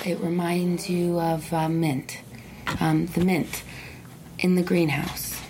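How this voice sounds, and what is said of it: Calm, soothing hypnotist-style voice. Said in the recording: “My voice is calm and relaxing.”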